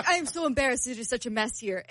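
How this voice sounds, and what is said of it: Put-on Argentinian accent. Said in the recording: “her Argentinian accent? ... I'll stop doing my accent.”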